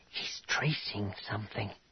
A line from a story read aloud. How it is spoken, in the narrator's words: Jaina said in a whisper